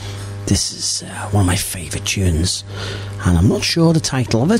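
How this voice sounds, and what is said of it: Soft, hushed, whispery voice. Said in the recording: “Why are you whispering? ... I just have a nice dulcet tone to my voice.”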